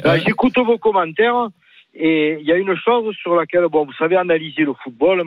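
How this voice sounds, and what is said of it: Marseille French accent. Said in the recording (French): “accent marseillais visiblement”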